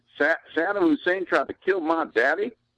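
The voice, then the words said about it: Texas accent imitating another person. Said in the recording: “That's a great Texas accent, by the way ... spot on”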